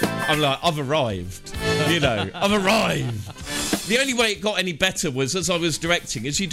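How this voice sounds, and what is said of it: Usual voice. Nothing is said of it.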